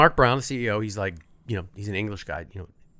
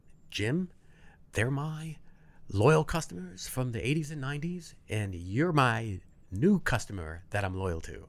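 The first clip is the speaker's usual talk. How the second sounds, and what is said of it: Weak put-on British accent. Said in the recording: “was that your British accent? ... It needs work. It needs work.”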